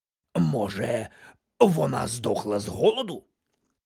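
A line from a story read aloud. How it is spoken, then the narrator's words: Hoarse rasp. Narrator (Ukrainian): прохрипів містер Вудчестер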